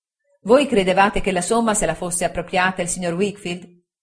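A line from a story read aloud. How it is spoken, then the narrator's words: Plain. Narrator (Italian): disse Traddles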